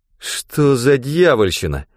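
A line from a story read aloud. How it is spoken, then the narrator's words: Forced out. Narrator (Russian): выдавил Рэндом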